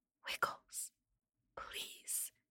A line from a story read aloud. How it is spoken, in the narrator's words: whispered as quietly as I can